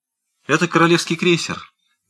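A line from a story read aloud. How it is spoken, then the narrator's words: Quick interjection, governess. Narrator (Russian): быстро вставила гувернантка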